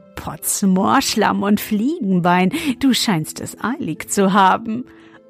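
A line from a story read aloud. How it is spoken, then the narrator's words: Laughing until choking. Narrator (German): und er lachte, bis er sich verschluckte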